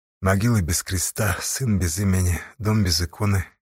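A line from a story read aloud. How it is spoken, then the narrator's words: Quiet. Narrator (Russian): тихо сказала Сташа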